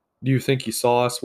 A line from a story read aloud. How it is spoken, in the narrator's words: one asked Zarx